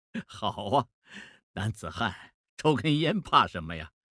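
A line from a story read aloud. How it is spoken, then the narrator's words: Laughing. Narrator (Chinese): 孟梅笑了说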